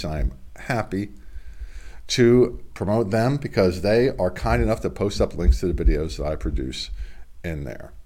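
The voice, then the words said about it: Congested, slightly off voice. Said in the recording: “My voice is a little off. I had a bit of a cold. It's congested.”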